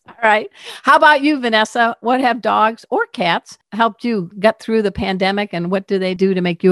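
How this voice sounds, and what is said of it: Usual voice. Nothing is said of it.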